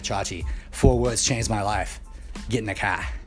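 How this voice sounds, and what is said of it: Imitated thick Boston accent. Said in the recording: “he's got a thick Boston accent”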